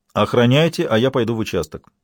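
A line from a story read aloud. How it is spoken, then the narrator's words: Plain. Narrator (Russian): сказал Лабрюер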